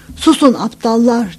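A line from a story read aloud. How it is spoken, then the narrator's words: Shouting again. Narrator (Turkish): diye yeniden bağırdı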